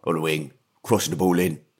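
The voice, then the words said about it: Imitates another person's voice. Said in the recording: “Just doing a Sean Dyche impression... Oh, it was really good.”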